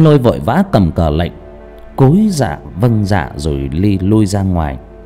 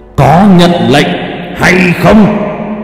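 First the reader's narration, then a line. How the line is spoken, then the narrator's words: Hissing shriek. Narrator (Vietnamese): Thiên phụ vẫn rít lên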